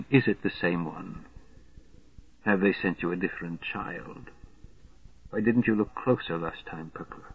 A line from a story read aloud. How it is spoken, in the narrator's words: the perverse whispering began